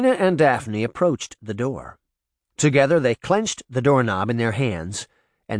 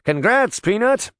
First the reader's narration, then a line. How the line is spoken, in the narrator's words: Uncle Jake cried